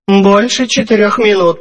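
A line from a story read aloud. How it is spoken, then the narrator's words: Grumbling. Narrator (Russian): проворчала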